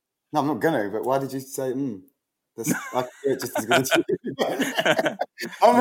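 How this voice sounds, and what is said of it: Usual voice. Nothing is said of it.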